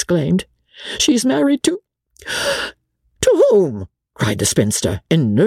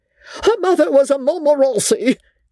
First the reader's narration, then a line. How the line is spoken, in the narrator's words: cried the old lady